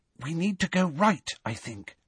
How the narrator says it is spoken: whispered Hermione

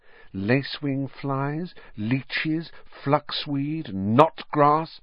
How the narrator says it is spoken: she murmured

